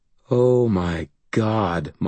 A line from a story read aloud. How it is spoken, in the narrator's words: Molly breathed